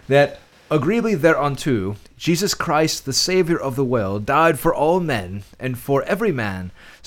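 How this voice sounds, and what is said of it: Put-on old English accent. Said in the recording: “this is going to be a little bit old English ... Here comes the accent.”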